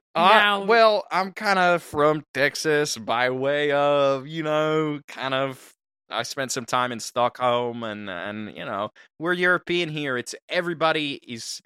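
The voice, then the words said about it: Shifting put-on Texan-sounding accent. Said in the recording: “Your accent, it's amazing. It's kind of a chameleon. You started off with, I thought you might have been from Texas or something.”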